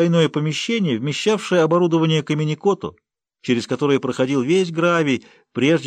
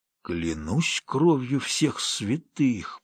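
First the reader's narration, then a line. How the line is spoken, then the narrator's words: Shocked, breathless. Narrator (Russian): потрясенно выдохнул он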